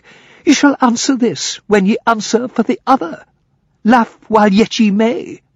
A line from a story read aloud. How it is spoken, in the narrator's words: cried the lad, flushing